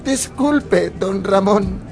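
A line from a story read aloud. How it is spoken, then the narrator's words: Stammering. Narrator (Spanish): balbuceó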